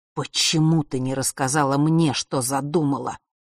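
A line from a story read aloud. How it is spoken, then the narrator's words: Hissing through teeth. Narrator (Russian): прошипел отец сквозь зубы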